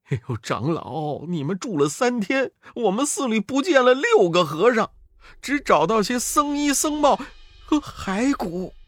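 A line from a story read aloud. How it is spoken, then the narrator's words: Tearful. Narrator (Chinese): 那些和尚哭得两眼通红，众和尚说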